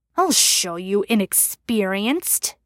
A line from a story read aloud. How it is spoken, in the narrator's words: he growled